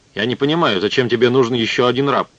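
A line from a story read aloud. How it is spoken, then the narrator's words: Plain. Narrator (Russian): сказал Нарсиси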